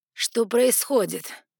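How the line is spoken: Gloomy question. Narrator (Russian): мрачно спросил северный дикий

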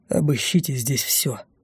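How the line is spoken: Quiet command. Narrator (Russian): так же тихо приказал Эдуард III

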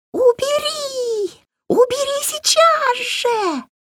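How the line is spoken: Ear-splitting shriek. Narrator (Russian): От визга у Вари заложило уши

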